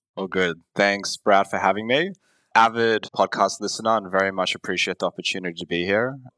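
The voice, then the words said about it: Australian accent. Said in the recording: “based in Australia, if you couldn't tell by my accent.”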